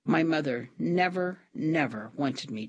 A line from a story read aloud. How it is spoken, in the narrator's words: Trina said